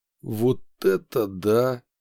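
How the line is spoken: Sincere exhaled exclamation. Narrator (Russian): выдохнул уже без сарказма

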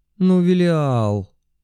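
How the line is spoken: Wailing. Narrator (Russian): взвыла Надя

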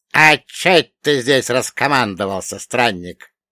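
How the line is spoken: Grumbling creaky voice. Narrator (Russian): ворчливо проскрипел мертвец

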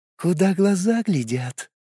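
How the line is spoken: Gentle female whisper. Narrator (Russian): ласковый женский шепот

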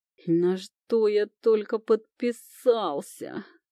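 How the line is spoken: Groan. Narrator (Russian): простонал Люк

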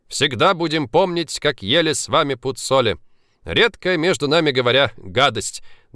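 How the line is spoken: Men laughing together. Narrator (Russian): дружно засмеялись мужчины

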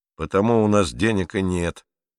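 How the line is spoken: Grumbling. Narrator (Russian): ворчал

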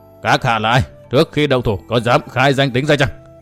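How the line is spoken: Harsh old man's question. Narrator (Vietnamese): một lão đại ma đầu gằn giọng hỏi

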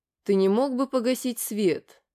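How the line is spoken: Lifeless voice. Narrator (Russian): Безжизненным голосом произнес мой спутник

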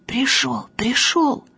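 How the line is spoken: Shouted whisper. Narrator (Russian): Танька шепотом кричит

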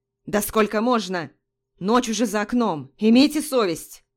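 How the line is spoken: Barking man. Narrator (Russian): рявкнул мужчина

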